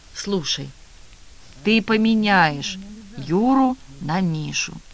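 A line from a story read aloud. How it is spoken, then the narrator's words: Calm. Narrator (Russian): Вера спокойно сказала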